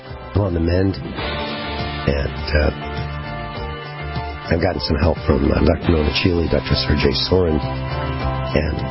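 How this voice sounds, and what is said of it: Worn, hoarse voice. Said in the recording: “my voice is a little shot today. It's because I'm recovering from pneumonia.”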